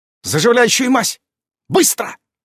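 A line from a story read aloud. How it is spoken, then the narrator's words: Sharp command. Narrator (Russian): Резким тоном распорядилась Иран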